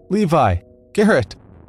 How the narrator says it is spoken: Screams

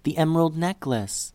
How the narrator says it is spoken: Liddy whispered

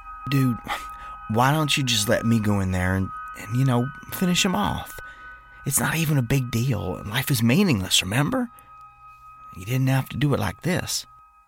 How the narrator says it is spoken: Jerry said softly

